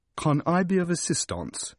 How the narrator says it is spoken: she said, in an odd accent that suggested long devotion to a book entitled Elocution Self-Taught

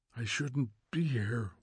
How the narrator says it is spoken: whispered Montag, almost to himself

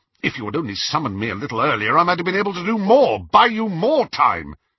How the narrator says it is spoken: said Snape furiously

